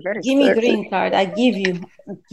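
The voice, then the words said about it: Mock Russian accent. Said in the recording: “I like Russian accent, you know. Russian. ... that's Russian. Very good. Very sexy.”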